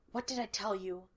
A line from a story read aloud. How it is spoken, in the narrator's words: Sean whispered